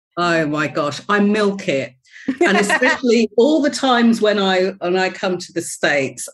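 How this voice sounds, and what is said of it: British London accent. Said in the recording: “speak very clipped, beautiful English ... I'm actually from London ... Your accent is hard to miss, my dear, and quite lovely”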